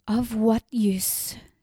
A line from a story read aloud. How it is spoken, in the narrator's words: she said, her voice shaking